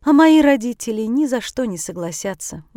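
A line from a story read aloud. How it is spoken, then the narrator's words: Sighing. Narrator (Russian): вздохнула Шакила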